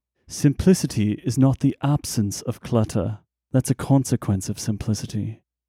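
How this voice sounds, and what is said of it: British accent imitating Jony Ive. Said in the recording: “profound Johnny Ive quotes ... Let me try it in a British accent again.”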